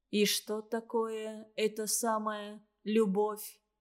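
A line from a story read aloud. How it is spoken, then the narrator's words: Flat, lifeless voice. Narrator (Russian): произнес он ровным, безжизненным голосом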